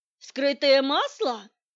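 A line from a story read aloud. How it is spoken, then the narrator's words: Exclamation. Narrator (Russian): воскликнула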